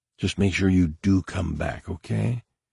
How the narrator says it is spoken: she whispered close to his ear

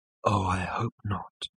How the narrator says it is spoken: breathed Ford

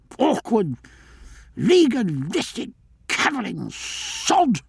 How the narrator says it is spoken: muttered the Admiral

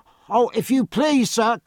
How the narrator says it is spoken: cried Jemmy Ducks, coming after the run

